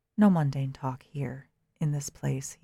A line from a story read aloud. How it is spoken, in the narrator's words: he said